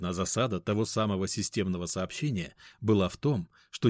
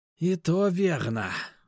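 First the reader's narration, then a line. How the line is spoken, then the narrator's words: Sigh. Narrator (Russian): вздохнул Стоун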